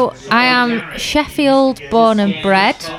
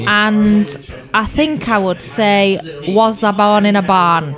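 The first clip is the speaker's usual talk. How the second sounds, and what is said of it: Put-on Lancashire accent. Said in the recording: “Why did you do a Lancashire accent?”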